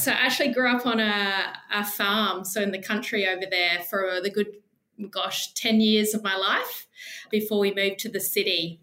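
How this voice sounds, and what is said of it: South Australian accent. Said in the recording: “born and bred in lovely South Australia. Maybe a bit of an accent”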